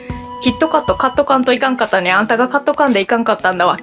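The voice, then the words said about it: Put-on Kansai dialect, rhythmic delivery. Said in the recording (Japanese): “関西弁で ... 関西弁だから、うん、なんていうの、リズムがあるから”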